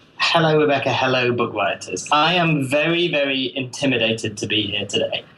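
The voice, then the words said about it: British accent. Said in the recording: “also has a British accent ... It's true that I have a British accent.”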